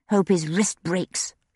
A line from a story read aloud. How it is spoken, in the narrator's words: she muttered